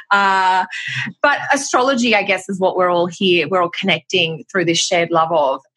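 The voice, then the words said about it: Australian accent. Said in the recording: “I'm Australian, which will be obvious by my accent”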